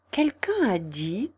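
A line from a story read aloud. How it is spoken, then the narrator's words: Murmuring. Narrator (French): murmura Alice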